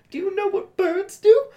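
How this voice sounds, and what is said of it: Little baby voice. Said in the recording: “in a little baby voice”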